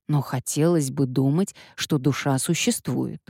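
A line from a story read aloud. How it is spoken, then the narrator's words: Grumbling. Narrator (Russian): проворчала Эмилия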